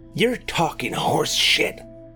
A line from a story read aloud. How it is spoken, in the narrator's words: hissed Roy